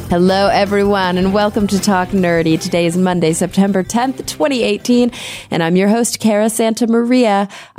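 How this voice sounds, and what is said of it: Voice affected by illness. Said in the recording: “I apologize for my voice here in the intro. ... picked up a little bit of con crud”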